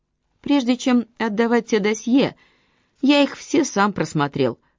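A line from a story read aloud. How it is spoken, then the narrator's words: Plain. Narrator (Russian): сказал детектив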